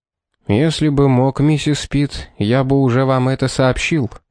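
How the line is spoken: Gloomy. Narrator (Russian): мрачно сказал Олифант

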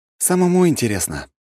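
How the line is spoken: Sighing. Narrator (Russian): вздохнул я

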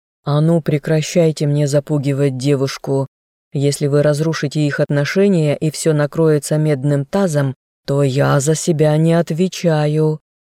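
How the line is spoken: Growl. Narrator (Russian): зарычал герцог

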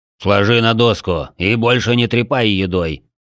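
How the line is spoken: Deep instructive voice. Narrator (Russian): наставительно пробасил тот

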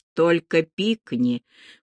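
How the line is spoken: Hissed into ear. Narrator (Russian): прошипел ей в ухо

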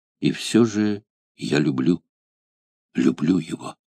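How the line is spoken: Soft whisper. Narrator (Russian): Она тихо шептала

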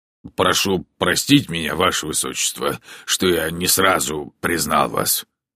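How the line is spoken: Muttered. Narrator (Russian): пробормотал он

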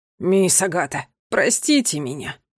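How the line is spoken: Sorrowful sigh. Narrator (Russian): горестно вздохнул дворецкий

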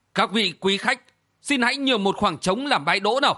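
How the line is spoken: Suddenly raised voice. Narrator (Vietnamese): Địa sát giáo chủ Trường Bạch Thương Ngừng chợt cao giọng nói

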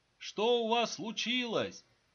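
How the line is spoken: Increasingly rude muffled shouting. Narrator (Russian): Все менее вежливо кричали из-за двери

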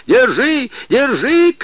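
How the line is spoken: Shouted. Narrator (Russian): крикнул Мишка

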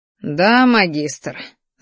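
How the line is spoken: Angry, through teeth. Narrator (Russian): злобно процедил сквозь зубы красноволосый

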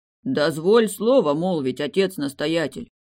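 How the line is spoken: Deep bass voice. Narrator (Russian): пробасил дюжий мужик в монашеском облачении

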